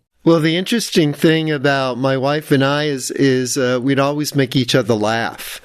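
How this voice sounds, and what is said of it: New York accent. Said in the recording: “Hear my New York accent?”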